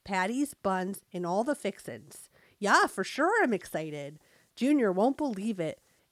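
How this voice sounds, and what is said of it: Reads in a put-on accent. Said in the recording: “That's your accent. That is your accent. ... Now I sound like I have an accent”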